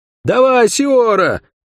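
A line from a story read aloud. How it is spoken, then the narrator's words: Shouted, young man. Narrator (Russian): крикнул светловолосый парень, в котором акробат узнал Мильвио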